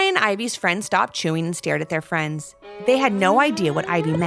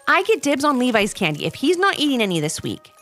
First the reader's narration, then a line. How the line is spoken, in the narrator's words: said Casey quickly